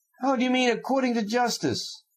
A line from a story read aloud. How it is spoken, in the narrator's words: Fyodor Pavlovich cried still more gaily